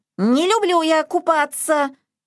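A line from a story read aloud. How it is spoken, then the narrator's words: Shrill squeal. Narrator (Russian): завизжал Изюмка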